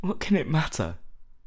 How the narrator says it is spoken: cried Dorian Gray, laughing

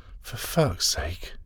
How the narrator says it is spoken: gasped

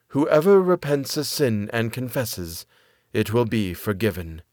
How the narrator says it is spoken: Speaking kindly, she said

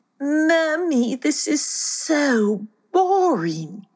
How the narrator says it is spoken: whined

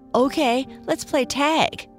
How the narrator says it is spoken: one of the faster rabbits yelled

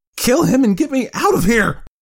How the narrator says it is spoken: the doctor screamed with panic

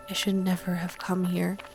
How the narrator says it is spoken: she whispered, eyes cresting with tears

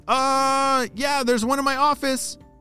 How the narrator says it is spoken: shouted her mom

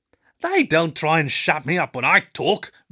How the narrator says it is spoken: Blue snapped

